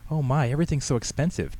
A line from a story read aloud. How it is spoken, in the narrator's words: Tammy exclaimed